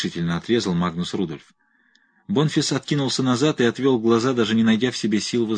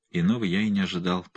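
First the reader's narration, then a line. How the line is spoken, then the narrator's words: Muttered. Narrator (Russian): пробормотал он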